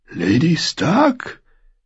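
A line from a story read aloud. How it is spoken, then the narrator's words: Hoarse, long-unused voice. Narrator (German): sagte er mit einer Stimme, die heiser war, da sie so lange nicht benutzt worden war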